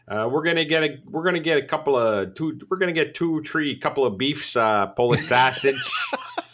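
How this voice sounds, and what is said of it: Put-on Chicago accent. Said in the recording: “Can you do a Chicago? ... That's classic.”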